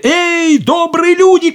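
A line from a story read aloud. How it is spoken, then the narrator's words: Shout. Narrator (Russian): крикнул он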